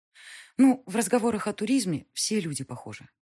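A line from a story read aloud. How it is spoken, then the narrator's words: Sighing. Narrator (Russian): вздохнула Алиса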